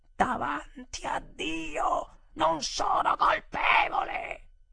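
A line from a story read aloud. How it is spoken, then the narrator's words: Sudden terrible shout. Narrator (Italian): mia moglie, tutta ad un tratto, gridò con una voce terribile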